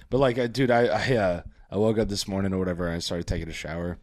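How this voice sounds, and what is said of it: Hoarse, unusually low voice. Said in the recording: “my voice is a little bit shot ... my voice was like shot ... how low it can go, and I found a whole new octave”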